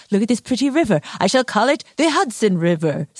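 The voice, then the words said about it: Henry Hudson impression. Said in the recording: “That was a very good Henry Hudson impression.”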